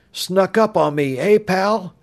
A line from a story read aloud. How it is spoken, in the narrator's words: thought with a chuckle